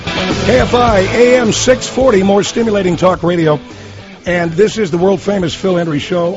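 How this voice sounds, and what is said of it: Hoarse voice, recovering from laryngitis. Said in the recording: “the tail end here of my laryngitis”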